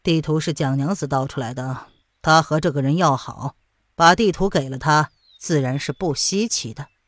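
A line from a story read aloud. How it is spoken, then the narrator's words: Calm, flat. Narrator (Chinese): 淡淡的道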